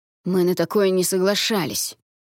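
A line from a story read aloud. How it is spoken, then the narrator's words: Angry hiss nearby. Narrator (Russian): зло зашипел один из голосов неподалеку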